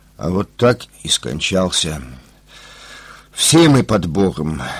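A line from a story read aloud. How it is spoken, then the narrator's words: Tired. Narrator (Russian): устало произнес врач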